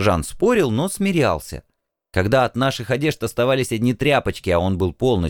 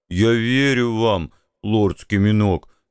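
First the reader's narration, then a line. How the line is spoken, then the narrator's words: Muffled, tearful. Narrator (Russian): глухо ответил мой зареванный друг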